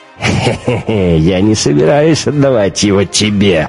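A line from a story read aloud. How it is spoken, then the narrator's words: Laughing. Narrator (Russian): рассмеялся Штайнер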